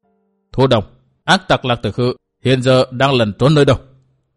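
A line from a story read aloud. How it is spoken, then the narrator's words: Cold question. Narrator (Vietnamese): Từ Mã Minh cất tiếng lạnh lùng hỏi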